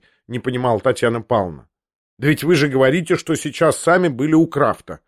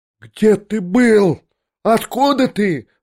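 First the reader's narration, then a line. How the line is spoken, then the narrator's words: Shrieking. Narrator (Russian): взвизгнула Татьяна Павловна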